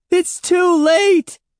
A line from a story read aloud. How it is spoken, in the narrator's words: Andy shrieked